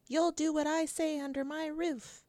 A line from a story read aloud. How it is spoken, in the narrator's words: Mama gets angry, shouts